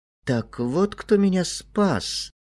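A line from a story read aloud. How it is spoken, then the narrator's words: Muttering. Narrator (Russian): пробормотал он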